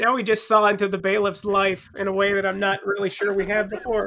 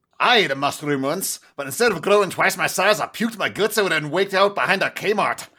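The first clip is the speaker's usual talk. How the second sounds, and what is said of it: Poor put-on accent. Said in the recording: “That's a terrible accent you got there.”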